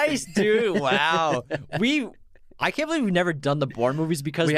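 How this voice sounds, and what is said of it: Usual voice. Nothing is said of it.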